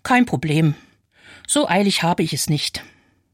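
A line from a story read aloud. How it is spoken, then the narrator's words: Very calm. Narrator (German): Aber die Dame hinter mir sagt ganz ruhig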